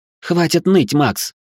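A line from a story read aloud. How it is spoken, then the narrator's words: Sharp shout. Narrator (Russian): прикрикнула на него Лора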